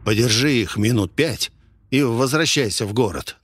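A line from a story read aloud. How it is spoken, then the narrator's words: Whispered. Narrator (Russian): нашептал я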